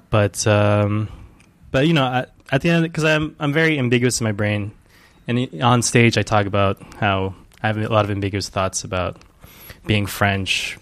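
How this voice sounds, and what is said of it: American accent. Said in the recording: “I speak... like an American ... that's where I developed an American accent”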